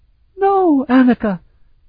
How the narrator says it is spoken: Zanisha also exclaimed

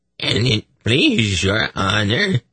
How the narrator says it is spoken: he said in a squeaky voice, dripping with servile stupidity

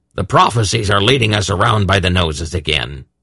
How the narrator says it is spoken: Belden said irritably

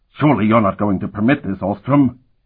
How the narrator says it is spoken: Ortsel said angrily

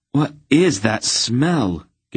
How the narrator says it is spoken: Garion asked, looking about nervously

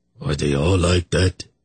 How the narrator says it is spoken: Ergot asked miserably

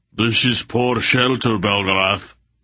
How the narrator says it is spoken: Barak roared

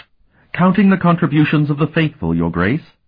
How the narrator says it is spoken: Talon asked eagerly

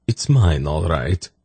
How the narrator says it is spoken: sighed

